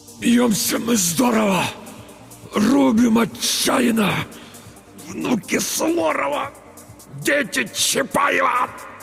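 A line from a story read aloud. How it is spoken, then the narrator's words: Strained, weak. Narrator (Russian): Только и смог выдавить Петр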